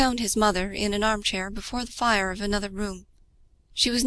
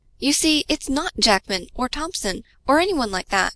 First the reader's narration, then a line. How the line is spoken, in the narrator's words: he exclaimed